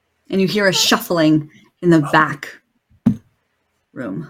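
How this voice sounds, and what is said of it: Usual voice. Nothing is said of it.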